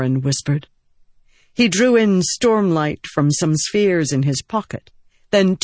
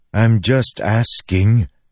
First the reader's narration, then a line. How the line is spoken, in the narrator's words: Ken grumbled